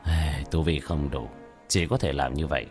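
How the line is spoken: Sighing mutter. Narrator (Vietnamese): tiểu thất thở dài, lẩm bẩm

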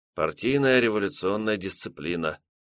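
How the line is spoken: Mumble. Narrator (Russian): промямлил Красин

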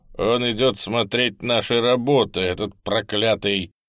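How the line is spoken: Plain. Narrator (Russian): сказал он

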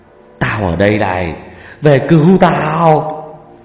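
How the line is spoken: Howling yell. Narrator (Vietnamese): Ông cứ gào hú

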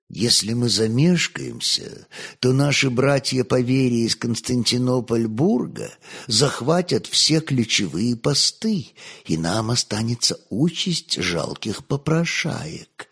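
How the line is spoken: Quiet, convincing reply. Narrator (Russian): негромко, но, как всегда, убедительно ответил легат

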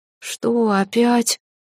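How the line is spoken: Sleepy. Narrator (Russian): сонно Лирел

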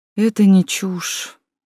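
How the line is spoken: Sad. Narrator (Russian): грустно покачал головой

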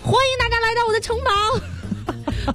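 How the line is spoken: Loud shout. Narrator (Chinese): 我朋友张开手臂大喊了一声

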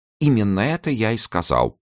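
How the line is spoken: Timid interjection. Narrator (Russian): робко вставил Чамберс

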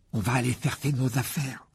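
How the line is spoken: Desperate tone. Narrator (French): dit Ron d'un ton désespéré

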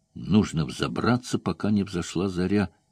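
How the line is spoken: Whisper. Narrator (Russian): шепнул Лоран

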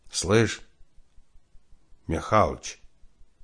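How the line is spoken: Hoarse failed whisper. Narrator (Russian): прозвучал хриплый голос человека, пытающегося говорить шепотом и не умеющего это делать

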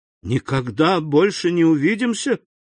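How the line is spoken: Exclaiming. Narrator (Russian): воскликнул Эммануэль

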